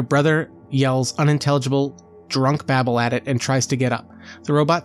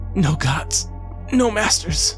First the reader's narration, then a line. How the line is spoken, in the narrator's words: he says as he gasps for air